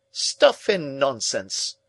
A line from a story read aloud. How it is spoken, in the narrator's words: cried Summerlee again with quite unnecessary violence